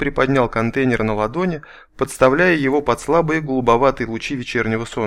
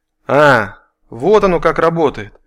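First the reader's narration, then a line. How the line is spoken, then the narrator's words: Pleased exclamation. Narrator (Russian): Довольно воскликнул Влад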